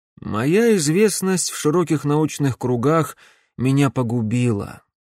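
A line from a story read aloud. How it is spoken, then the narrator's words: Sad. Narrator (Russian): печально произнес Живодан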